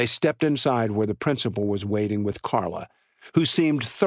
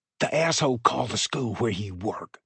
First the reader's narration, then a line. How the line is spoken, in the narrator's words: Jake whispered